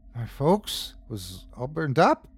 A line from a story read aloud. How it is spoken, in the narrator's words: faltered Jonas